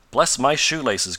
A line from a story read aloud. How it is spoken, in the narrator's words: cried Mr